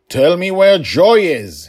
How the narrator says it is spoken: his voice boomed

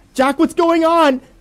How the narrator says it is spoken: screamed, as I heard what I could only assume to be her body drag across the muddy floor away from me

